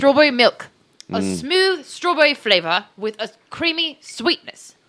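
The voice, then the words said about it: Put-on British accent. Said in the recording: “everyone speaks in a British accent for the rest of this ... Everybody's doing a British accent.”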